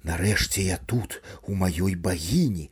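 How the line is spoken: Self-rousing mutter aloud. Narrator (Belarusian): Макар паспрабаваў нават усхваляваць сябе, уголас прамармытаўшы

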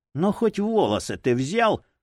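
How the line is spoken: Forced, feigned calm. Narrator (Russian): Голди буквально выдавил из себя, деланно спокойную фразу

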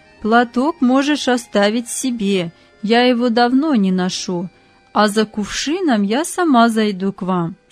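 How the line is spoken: Plain. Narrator (Russian): сказала она

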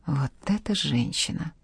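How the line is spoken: Whisper. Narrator (Russian): прошептала Жанна

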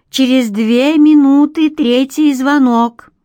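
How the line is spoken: Loud call down echoing corridor. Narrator (Russian): Громко и безадресно произнесла она в гулкую кишку коридора

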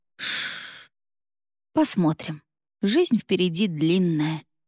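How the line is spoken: Soothing hiss. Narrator (Russian): едва приоткрыв губы, успокаивающе шипела

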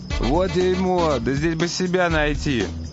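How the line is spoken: Plain. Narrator (Russian): сказал мой адвокат

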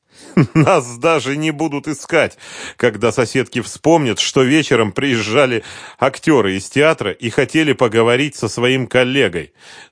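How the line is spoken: Speaking through laughter. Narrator (Russian): сквозь смех сказал Вейдеманис

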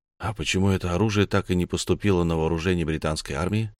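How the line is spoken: Plain question. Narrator (Russian): спросил я

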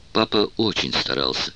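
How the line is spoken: Soft. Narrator (Russian): мягко сказала она

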